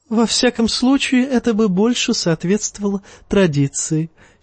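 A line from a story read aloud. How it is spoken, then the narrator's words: Giggling. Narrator (Russian): хихикнул Евнух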